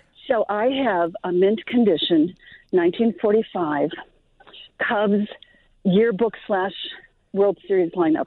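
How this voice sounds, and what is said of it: Slightly out of breath. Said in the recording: “out of breath. I'm walking my dog right now, so I'm a little out of breath.”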